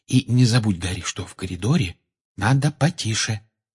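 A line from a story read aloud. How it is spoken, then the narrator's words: Whispered reminder. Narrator (Russian): шепотом напомнила ему Гермиона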